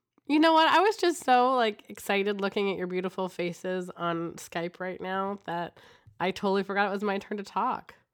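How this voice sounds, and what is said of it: Slightly off, sick-sounding voice. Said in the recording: “I've been sick, so my voice might sound a little weird today”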